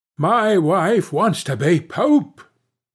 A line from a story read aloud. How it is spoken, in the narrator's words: cried the fisherman